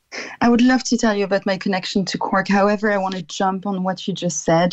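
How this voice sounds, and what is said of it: French accent. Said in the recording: “The beautiful French accent of yours.”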